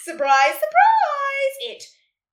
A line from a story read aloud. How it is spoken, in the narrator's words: yelled